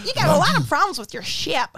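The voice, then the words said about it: Imitates a character's voice. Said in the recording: “It's really good, that impression. It's good... you're way too good at that impression”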